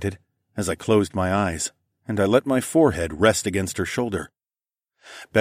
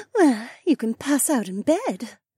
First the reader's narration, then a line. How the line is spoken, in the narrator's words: Becca giggled